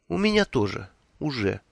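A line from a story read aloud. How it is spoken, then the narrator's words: Gloomy. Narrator (Russian): мрачно откликнулась она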